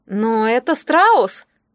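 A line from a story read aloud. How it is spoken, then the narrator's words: Bewildered. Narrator (Russian): растерянно заметил Доминика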